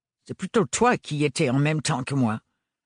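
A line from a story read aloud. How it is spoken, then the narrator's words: Haughty remark. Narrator (French): fit remarquer Octavio d'un ton hautain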